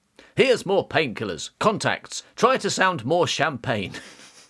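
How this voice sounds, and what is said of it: Posh English accent. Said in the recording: “I'm doing a really posh accent.”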